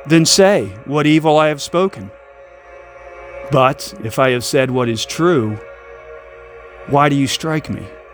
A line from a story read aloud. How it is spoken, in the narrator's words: Jesus answered calmly